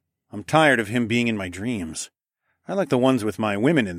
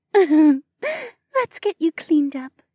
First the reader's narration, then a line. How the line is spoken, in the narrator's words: Mariah giggled